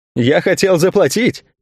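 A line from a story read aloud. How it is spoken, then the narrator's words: Answered laughing. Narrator (Russian): смеясь, ответил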